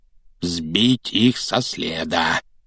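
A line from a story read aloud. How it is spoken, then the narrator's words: Man muttering repeatedly. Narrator (Russian): всякий раз бормотал дядя Вернон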